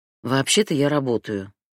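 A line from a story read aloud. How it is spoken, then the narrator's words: Heavy sigh, forced calm. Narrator (Russian): тяжело вздохнула Фатима, стараясь сохранять спокойствие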